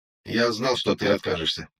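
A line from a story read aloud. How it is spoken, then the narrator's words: Calm reply. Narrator (Russian): спокойно отвечает Лис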